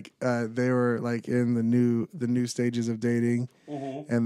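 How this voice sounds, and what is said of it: Usual voice. Nothing is said of it.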